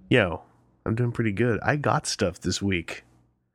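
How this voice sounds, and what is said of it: Quiet, soft close-mic voice. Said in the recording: “I'm going to get real chill. I'm going to turn this mic up, and I'm going to put my mouth real close to it ... I'm going to get all Barry Manilow on you, except that my voice is not nearly as sexy”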